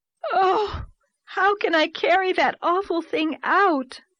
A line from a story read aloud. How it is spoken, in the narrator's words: moaned Anne with a shudder